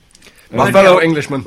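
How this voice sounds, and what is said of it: Poor impression of the Queen. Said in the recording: “That was a terrible Queen impression.”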